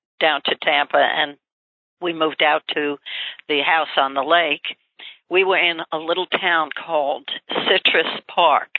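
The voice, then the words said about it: New York accent. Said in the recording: “you hear my accent. I don't think you can ever lose your New York accent.”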